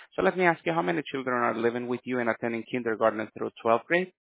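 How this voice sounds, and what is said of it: Talking very fast. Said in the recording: “You're talking really fast.”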